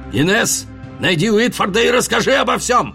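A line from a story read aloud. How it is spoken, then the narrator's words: Shouting. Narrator (Russian): крикнул Тео Рикардо, пока его волокли по коридору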